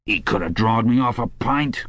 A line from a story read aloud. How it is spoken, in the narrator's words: grumbled the old man